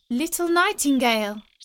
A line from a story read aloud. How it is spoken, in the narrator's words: cried the girl, raising her voice